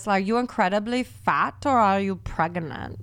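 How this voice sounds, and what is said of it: Imitates another person's accent. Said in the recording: “I've been trying to do the, like, her accent”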